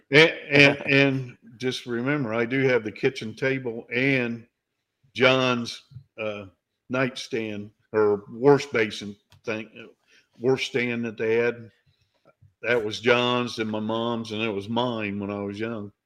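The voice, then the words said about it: Indiana Midwestern accent. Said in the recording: “you have such an Indiana accent.”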